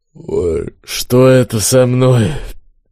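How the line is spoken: Groaning, bewildered, sleepy. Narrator (Russian): Мужчина застонал, недоуменно сонно произнес

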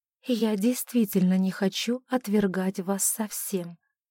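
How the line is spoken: Agitated whisper. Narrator (Russian): прошептала она, чувствуя, как снова неудержимо бьется сердце

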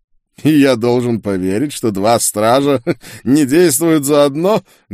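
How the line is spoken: Mocking laugh. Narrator (Russian): глумливо рассмеялся чародей

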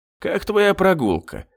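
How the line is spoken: Calm question. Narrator (Russian): спокойно спросил у нее

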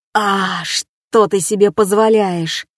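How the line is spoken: Dog-like snarl. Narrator (Russian): собакой зарычал сосед-козел

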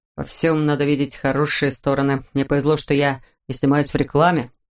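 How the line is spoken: Grumbled. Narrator (Russian): проворчал Хаврон

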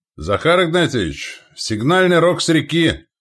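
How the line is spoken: Shouted. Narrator (Russian): крикнул десятник Стриж

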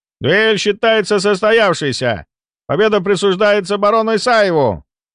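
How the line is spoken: Loud official announcement. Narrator (Russian): громко произнес судья

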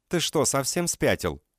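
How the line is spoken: Shouted outburst. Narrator (Russian): выкрикнула она

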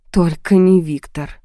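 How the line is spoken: Sigh. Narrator (Russian): вздохнула я

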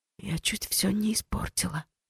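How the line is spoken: Whispered. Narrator (Russian): прошептала Ори

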